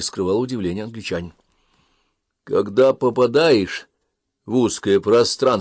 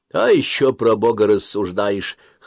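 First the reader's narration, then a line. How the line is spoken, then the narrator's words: Captain's scoffing grunt. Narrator (Russian): хмыкнул капитан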